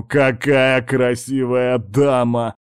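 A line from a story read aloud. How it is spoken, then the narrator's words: Bursting laughter. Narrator (Russian): разразился хохотом Гэмбл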